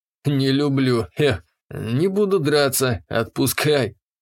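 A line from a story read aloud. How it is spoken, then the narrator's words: Giggle. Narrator (Russian): хихикнула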